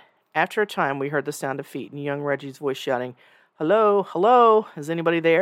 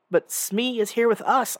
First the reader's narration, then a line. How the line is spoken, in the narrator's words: I cried